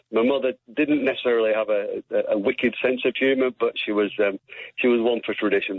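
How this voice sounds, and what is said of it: Non-Welsh accent. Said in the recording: “I can tell from your accent that it's not from Wales anyway.”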